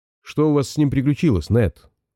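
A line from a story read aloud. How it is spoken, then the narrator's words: Plain. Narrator (Russian): спросил он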